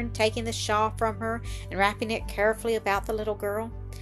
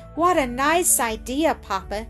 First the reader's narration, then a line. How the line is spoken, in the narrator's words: exclaimed with a low, musical laugh, her face growing bright and glad